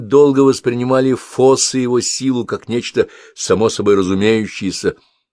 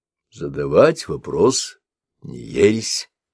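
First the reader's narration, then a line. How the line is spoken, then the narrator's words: Soft. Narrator (Russian): мягко проговорил Шава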